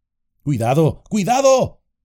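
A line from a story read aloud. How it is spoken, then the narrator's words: Shouted. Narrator (Spanish): gritó Danrob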